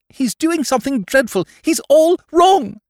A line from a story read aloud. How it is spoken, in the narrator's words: cried the young woman with desperate vehemence